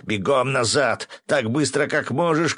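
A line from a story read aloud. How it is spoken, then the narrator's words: Shout. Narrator (Russian): крикнул я Максу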